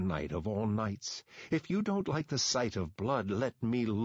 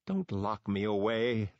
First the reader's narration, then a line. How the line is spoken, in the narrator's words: the mask whined